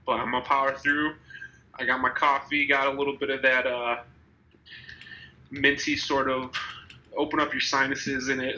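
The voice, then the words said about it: Nasal, congested voice. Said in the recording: “I think I'm coming down with a bit of a bug. If I sound a little nasally and my voice sounds weird”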